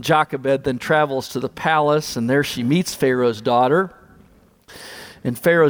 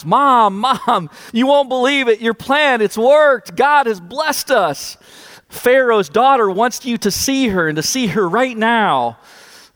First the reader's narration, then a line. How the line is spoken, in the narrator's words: She shouts